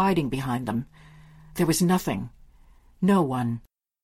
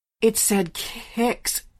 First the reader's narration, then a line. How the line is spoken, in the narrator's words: she stammered